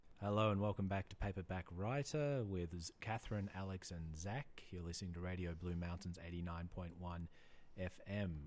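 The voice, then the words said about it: Put-on creepy radio announcer voice. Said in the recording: “you put on a radio voice ... It's pretty creepy ... I'm just pretending to be Dracula”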